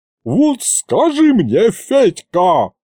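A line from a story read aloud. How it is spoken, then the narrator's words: Sudden yell. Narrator (Russian): завопила вдруг тетка Ягута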